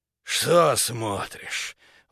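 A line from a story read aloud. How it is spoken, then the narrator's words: Breathed out. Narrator (Russian): выдохнул он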